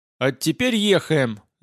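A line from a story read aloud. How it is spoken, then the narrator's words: Loud yell. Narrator (Russian): заорал я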